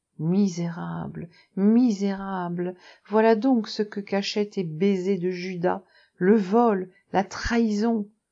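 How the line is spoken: Dull groan. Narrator (French): Elle gémit sourdement

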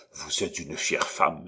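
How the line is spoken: Murmur. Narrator (French): murmura Gondrequin

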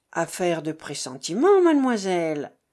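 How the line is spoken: Decisive reply. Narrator (French): répondit monsieur Weldon d'un ton décidé

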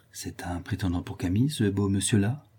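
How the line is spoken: Speaking very softly. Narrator (French): lui dit-elle tout bas

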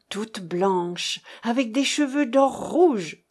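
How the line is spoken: Excited exclamation. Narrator (French): s'écria Maximin très excité

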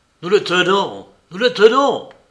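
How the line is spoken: Exclaimed. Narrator (French): s'écria-t-il

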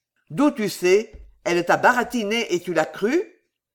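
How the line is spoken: Nervous sneering laugh. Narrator (French): Brouche ricanait nerveusement

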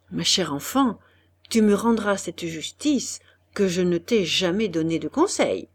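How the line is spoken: Almost low voice, after pause. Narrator (French): Après un silence assez long, Monsieur de Pradon dit presque à voix basse

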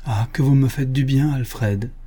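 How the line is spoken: Overjoyed exclamation. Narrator (French): s'écria Mina au comble du bonheur

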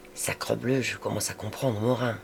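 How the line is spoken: Whispered. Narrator (French): Je dis tout bas à Rivet

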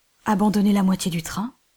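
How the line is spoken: Captain exclaiming. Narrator (French): s'écria le capitaine Hodd

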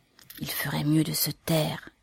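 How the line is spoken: Mother whispering to son. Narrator (French): chuchota la mère en s'adressant à son fils

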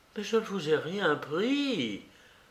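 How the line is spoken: Terrified murmur. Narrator (French): murmura Sonia épouvantée

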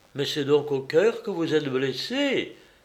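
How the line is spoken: Pale, shocked exclamation. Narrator (French): s'écria Georges tout pâle

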